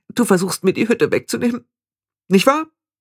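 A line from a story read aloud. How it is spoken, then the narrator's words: Almost sobbing. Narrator (German): Anagramma schluchzte fast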